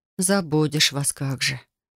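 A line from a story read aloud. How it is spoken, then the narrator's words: Whisper. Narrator (Russian): прошептала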